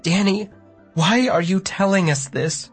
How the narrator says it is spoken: Mom asked tearfully

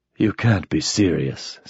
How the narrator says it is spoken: said Mike, in a soft voice that was suddenly quite sober

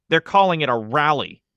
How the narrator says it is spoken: Mike said angrily, trying to make it sound like some sort of happy high school thing

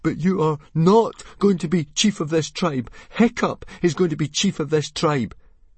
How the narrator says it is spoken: Fishlegs went very white in the face, but he still managed to gasp out

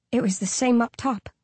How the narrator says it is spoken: I whispered

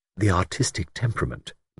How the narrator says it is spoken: murmured Bridget

